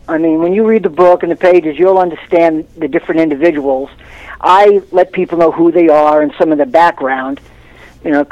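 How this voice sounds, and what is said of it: Brooklyn accent. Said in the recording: “you're originally from Brooklyn ... you can tell. It's a great accent. I love Brooklyn accents.”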